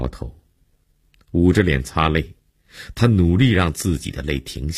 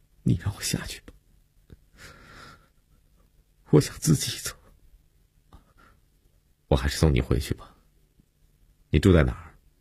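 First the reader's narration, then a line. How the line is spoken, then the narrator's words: Choked, tearful. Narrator (Chinese): 悠悠哽咽着说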